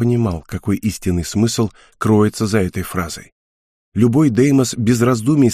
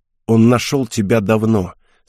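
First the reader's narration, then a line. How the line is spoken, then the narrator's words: Through gritted teeth, pained. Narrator (Russian): сказал я сквозь зубы, стараясь не обращать внимания на боль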